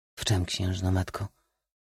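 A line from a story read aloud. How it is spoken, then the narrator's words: Calm question. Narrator (Polish): zapytał spokojnie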